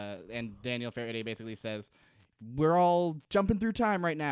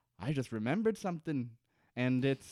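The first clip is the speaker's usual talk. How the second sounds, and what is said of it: Impression of a TV character. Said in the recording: “your Desmond impression.”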